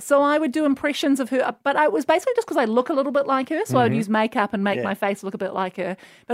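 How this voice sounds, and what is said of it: New Zealand accent. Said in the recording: “I just have a New Zealand accent.”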